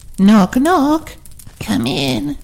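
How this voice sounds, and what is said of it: Old woman voice. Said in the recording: “in an old woman voice.”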